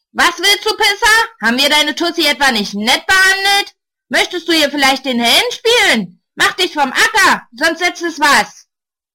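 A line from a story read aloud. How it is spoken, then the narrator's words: One man bellowing. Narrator (German): Einer brüllt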